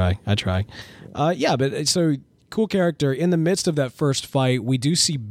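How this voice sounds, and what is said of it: Usual voice. Nothing is said of it.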